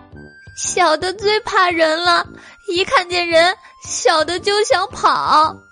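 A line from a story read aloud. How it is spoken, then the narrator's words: Crying. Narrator (Chinese): 黄花狸猫又哭道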